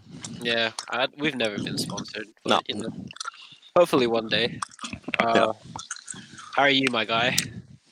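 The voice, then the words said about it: Congested, sniffly voice. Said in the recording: “I forgot to take my allergy medicine this morning. That's why I sound a bit weird. ... Yeah, so I'm a bit sniffly.”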